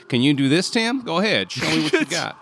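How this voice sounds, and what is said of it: Put-on deep rural Southern accent. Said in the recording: “My Southern accent is wonderful... Depends on where you want to be from the South. Now, this is a more of a genteel accent... we can also go this way if you want. We're just more deep rural South.”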